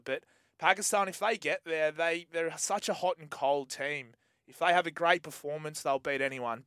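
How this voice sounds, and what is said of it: Excited, pumped-up voice. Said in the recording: “You can hear it in my voice. I'm pumped.”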